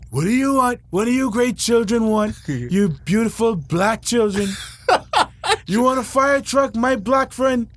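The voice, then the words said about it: Donald Trump impression. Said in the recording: “Do Donald Trump. Donald Trump.”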